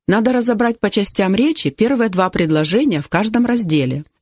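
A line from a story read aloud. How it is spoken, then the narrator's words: Plain. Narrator (Russian): сказал учитель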